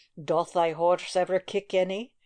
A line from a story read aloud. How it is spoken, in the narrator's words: he said at last, in a harsh, rough voice